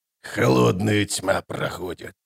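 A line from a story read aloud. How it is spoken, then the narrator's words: Grumbling mutter. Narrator (Russian): пробурчал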